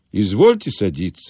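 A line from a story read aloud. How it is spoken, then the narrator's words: Calm reply. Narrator (Russian): спокойно отвечал он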